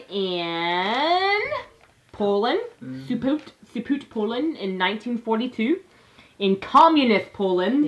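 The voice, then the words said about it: Weird put-on Scandinavian-sounding accent. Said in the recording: “that was some weird ass like ... No, that's more like Swedish ... like the Scandinavian accent”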